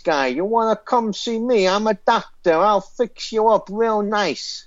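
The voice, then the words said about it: Exaggerated American wise-guy accent. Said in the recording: “That's better than his American accent.”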